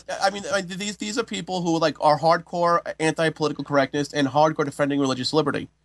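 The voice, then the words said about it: New York accent. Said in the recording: “the New York accent.”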